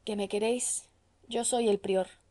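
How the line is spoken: Old friar's humble broken voice. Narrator (Spanish): el fraile, que era hombre de alguna edad, respondió con voz humilde y quebrantada

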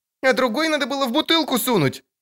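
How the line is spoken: Sudden squeak, small child. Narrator (Russian): Пискнул вдруг сын Хоффмайера, маленький низушек

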